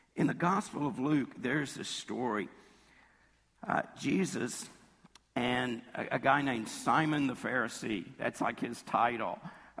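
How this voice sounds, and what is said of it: Rough, hoarse voice. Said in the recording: “excuse my voice today ... It's a little rough”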